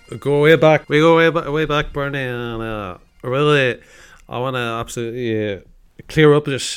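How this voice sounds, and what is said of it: Scottish voice imitating another person. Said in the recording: “fellow Scotsman ... enjoyed impersonating this man every single week ... Sir Alex Ferguson”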